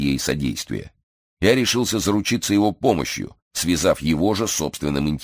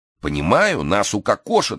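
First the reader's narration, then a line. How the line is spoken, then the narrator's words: Frightened exclamation. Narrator (Russian): в испуге воскликнул виноторговец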